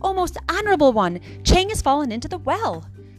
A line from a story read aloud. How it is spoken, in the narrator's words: Tiki Tiki Tembo No Sar Rembo Cherry Berry Ooch Pip Peri Pembo raised his voice and cried